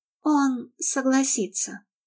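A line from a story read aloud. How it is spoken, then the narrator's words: Sighing. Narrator (Russian): вздохнула она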